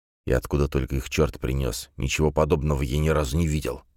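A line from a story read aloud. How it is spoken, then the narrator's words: Grumbled. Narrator (Russian): буркнул Паркер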